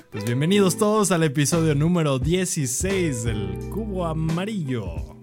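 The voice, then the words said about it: Cheesy radio announcer voice. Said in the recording (Spanish): “empieza y brota ese, esa voz de locutor que no quieres que salga porque suena muy chafa”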